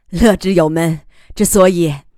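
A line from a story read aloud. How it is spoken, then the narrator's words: Laughing. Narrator (Chinese): 楚天乐笑着说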